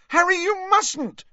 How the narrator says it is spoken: shrieked Hermione

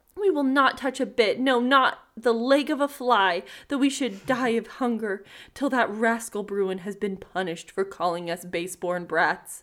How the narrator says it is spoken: the young tomtits kept crying and screaming, and when their father and mother came home and offered them food, they all said

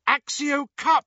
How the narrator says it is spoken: cried Hermione, in her desperation

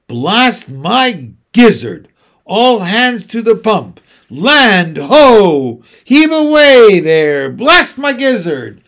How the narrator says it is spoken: shouted the Admiral

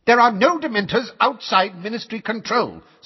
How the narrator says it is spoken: snapped Fudge, who had turned brick red

